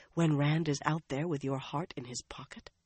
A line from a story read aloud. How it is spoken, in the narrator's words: Lyanna asked, her voice just as low as theirs